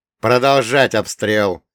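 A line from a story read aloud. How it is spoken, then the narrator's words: Barked order. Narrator (Russian): рявкнул он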